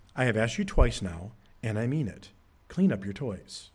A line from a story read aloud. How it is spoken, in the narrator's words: Mom speaks again from the other room, she calmly says, but firmly